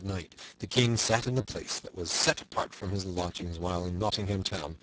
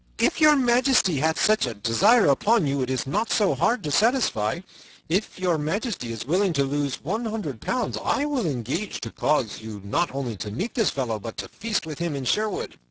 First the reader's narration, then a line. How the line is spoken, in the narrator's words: up spoke Sir Hubert of Gingham, laughing